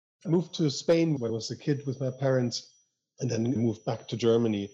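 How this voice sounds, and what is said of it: Slight northern German accent. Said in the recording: “I grew up in northern Germany, as I think you can still tell a little bit by my accent.”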